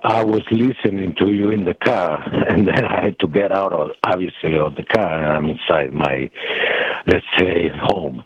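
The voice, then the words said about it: Western European accent. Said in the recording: “I was born and grew up in Western Europe. You can hear my accent”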